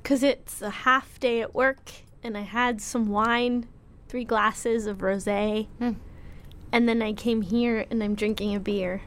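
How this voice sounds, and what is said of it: Slightly slurred, tipsy speech. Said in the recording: “I'm actually drunk ... I feel like I'm slurring my words ... You're a little loaded.”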